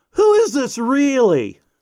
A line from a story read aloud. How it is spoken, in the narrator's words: there was a distinct pause before John called out